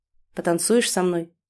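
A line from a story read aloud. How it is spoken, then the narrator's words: Plain. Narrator (Russian): спросил Руслан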